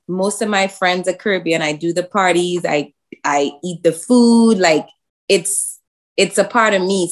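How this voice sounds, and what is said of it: Caribbean (Trinidadian) accent. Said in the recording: “He thought I was from Jamaica when he heard my accent.”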